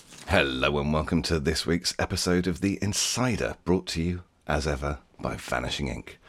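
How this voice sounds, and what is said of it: Polished radio-style speaking voice. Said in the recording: “You've got a very good podcast voice ... It's a very good radio voice”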